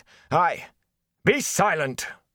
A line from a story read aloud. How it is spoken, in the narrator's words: the mayor roared